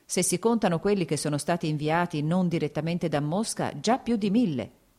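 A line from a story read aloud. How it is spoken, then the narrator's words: Plain. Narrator (Italian): disse Sergei Ivanovich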